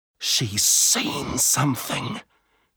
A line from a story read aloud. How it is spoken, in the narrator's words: Manu whispered